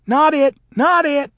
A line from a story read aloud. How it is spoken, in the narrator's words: the other children shrieked